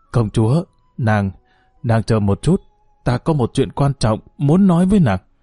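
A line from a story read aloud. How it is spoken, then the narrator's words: Hoarse voice. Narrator (Vietnamese): thanh âm khàn khàn nói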